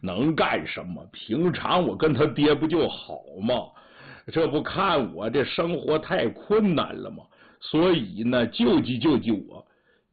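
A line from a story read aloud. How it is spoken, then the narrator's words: Laughing. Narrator (Chinese): 张金龙笑了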